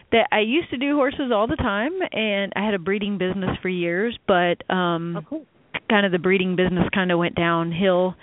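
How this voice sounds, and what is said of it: Texas accent. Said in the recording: “Where that accent... I love the accent, though... there's a few of those accents”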